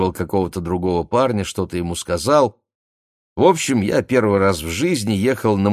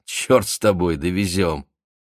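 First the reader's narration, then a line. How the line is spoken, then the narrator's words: Laughing. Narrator (Russian): Он засмеялся и сказал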